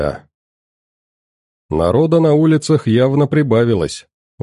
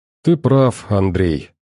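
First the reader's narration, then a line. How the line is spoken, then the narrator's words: Girl sighing. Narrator (Russian): вздохнула девушка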